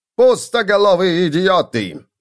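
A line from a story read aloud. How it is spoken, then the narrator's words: Barking snap. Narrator (Russian): рявкнул он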